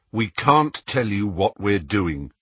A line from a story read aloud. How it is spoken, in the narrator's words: said Harry flatly